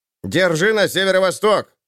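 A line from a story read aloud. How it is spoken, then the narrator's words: Confident shout. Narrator (Russian): крикнул, будто ставший выше ростом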